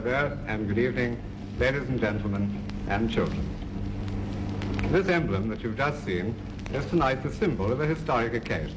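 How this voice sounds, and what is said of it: Proper British accent. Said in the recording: “such a proper British accent too”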